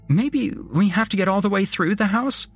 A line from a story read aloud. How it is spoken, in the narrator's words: Julie said, her voice panicked